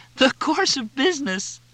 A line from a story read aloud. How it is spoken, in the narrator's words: Cindy laughed